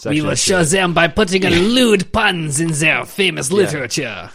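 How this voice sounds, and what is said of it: Put-on French accent. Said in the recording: “you'll do a French accent”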